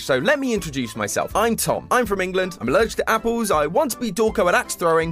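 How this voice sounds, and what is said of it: British accent. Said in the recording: “sounds British”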